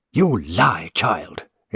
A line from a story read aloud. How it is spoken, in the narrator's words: exclaimed the father fiercely